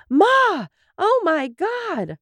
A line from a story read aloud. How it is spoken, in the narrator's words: they hear Dorothy scream